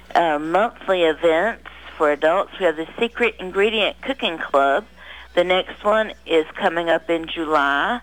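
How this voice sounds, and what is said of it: Slightly squeaky voice. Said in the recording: “my voice is a little squeaky”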